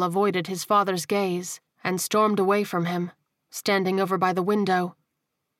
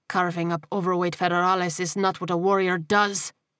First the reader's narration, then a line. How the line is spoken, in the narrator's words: he snarled